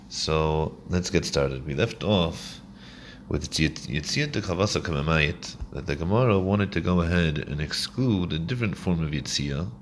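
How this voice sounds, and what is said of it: Voice affected by illness. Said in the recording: “wasn't of the best of health. You can still hear from my voice. I'm sure it's going to get worse”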